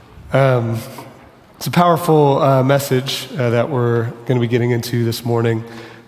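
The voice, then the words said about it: Hoarse, strained voice. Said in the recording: “I'm losing my voice a little bit. I've been losing my voice throughout the week”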